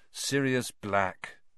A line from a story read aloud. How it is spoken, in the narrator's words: Harry said wearily